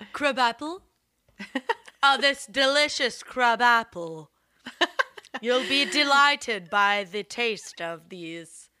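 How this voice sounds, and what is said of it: Transatlantic put-on accent. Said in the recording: “I love your transatlantic Moira Rose esque accent”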